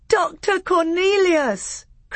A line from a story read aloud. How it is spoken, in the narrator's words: cried Caspian with joy